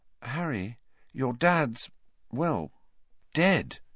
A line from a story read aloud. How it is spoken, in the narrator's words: she said quietly